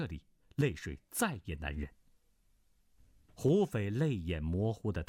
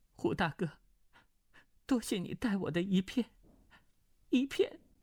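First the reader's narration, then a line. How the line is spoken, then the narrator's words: Trembling, holding back tears. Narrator (Chinese): 眼圈也早红了，强自忍住，便欲夺眶而出的眼泪，颤声道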